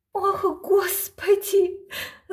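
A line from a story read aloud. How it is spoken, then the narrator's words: Moaning. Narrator (Russian): застонала маменька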